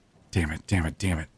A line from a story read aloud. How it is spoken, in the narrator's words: mumbled to myself as I ran